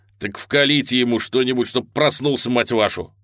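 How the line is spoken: Barked. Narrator (Russian): рявкнул Линк

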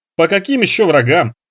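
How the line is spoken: Louder guffawing. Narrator (Russian): пуще прежнего захохотал Парсыкин

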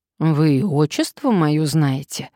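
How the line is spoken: Sigh. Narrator (Russian): вздохнул он

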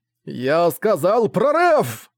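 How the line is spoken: Roaring. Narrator (Russian): взревел Ван Буэлэ

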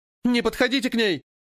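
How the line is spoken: Shouting. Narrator (Russian): крикнула Руна

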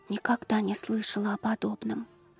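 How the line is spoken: Whisper while eating. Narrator (Russian): прошептала Манива с аппетитом, вгрызаясь острыми белоснежными зубами в бок восточного пирожка

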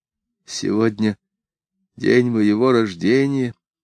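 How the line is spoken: Barely audible rustling whisper. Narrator (Russian): чуть слышно прошелестела она

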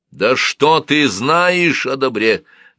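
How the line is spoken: Shouting. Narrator (Russian): закричал Тутмос

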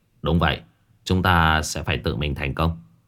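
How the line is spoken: Soft laugh. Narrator (Vietnamese): khẽ cười

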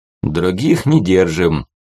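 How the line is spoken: Chuckling. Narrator (Russian): хохотнул молот

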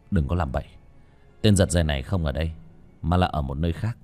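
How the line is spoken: Cold. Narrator (Vietnamese): Ba Cổ lạnh lùng

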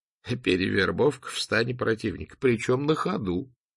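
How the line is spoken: Soft old laugh. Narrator (Russian): Букинист рассмеялся негромким старческим смехом

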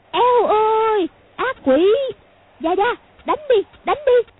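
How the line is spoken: Terrified shrieking. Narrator (Vietnamese): Khúc cô càng sợ hãi, cứ kêu rú lên

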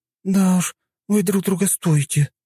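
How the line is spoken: Sighing. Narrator (Russian): вздохнула Юна

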